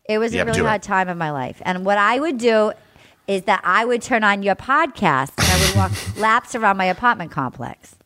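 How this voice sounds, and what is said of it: Put-on Rhode Island accent. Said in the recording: “I'm going to do it with a Rhode Island accent.”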